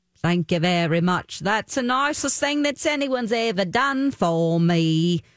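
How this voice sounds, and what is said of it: Rough-sounding put-on Cockney accent. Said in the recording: “I do like a Cockney accent. It's real rough sounding”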